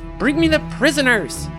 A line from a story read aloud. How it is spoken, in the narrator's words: Herrick shouts